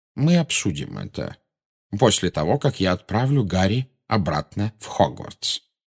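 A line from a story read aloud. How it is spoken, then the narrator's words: Plain. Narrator (Russian): сказал Дамблдор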